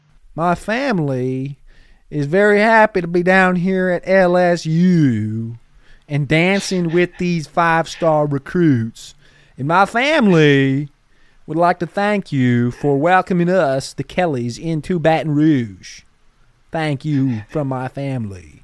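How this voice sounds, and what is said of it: Put-on southern accent. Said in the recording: “suddenly getting in a southern accent ... It's very cringy, but very funny.”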